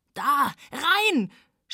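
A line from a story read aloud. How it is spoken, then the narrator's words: Shouted. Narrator (German): schrie Radek in seiner Not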